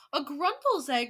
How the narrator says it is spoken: cried the audience

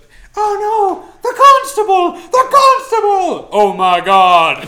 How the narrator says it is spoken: all kinds of loud shrieks of terror

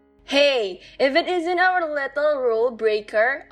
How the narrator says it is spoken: yelled

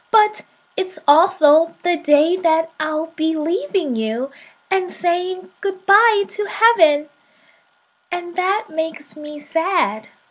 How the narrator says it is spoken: the little soul cried

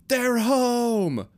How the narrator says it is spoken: Woody screamed over the other screaming

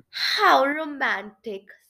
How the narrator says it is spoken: sighed Shivrin, drying a tear

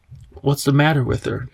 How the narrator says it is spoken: Tom asked anxiously

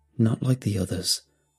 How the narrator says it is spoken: I muttered quietly

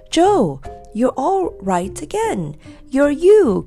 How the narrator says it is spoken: cried Bessie in delight

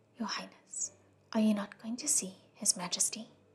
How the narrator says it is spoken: Feng Xin came out and whispered

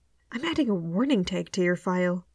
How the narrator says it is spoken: Nihila mutters

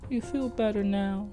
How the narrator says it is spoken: She asked in a baby voice

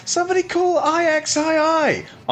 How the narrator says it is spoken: laughed

